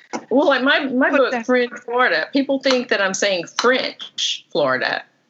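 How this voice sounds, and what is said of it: Strong Southern American accent. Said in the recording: “because I have such a southern accent”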